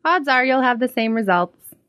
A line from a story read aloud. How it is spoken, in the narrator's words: she said